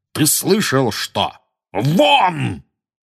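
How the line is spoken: Thunderous bellow. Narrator (Russian): гаркнул дядя Вернон так, что даже тетя Петунья и Дадли подскочили

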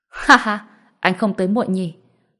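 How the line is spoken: Hearty laughing. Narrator (Vietnamese): Thượng tá cười lớn

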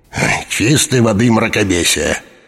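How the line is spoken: Grumble. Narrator (Russian): буркнул Таннер

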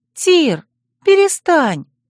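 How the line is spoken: Timid gentle ringing girl's voice. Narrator (Russian): Робко вмешалась девушка, волшебной песней прозвенел ее нежный голосок

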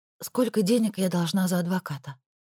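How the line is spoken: Barely audible. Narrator (Russian): Вышло совсем тихо, едва слышно

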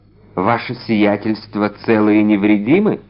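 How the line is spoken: Plain question. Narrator (Russian): спросил трактирщик

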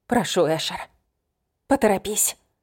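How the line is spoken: Breathless. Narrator (Russian): выдохнула

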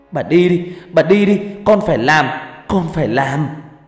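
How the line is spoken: Tearful loud shout. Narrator (Vietnamese): Nước mắt của Hằng lã chã rơi, hét lớn trong nước mắt

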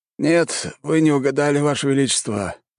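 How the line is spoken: Sighing servant. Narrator (Russian): вздохнул слуга

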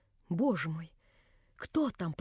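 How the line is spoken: Barely audible voice. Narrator (Russian): проговорила она чуть слышным голосом

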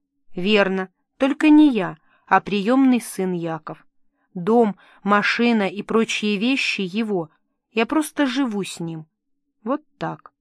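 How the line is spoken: Calm. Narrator (Russian): женщина спокойно отвечала

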